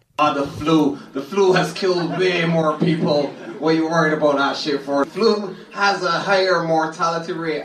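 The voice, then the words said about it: Caribbean accent. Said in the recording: “He's got what is a Caribbean accent. ... He might be from Jamaica, but he's definitely got a bit of a Caribbean accent,”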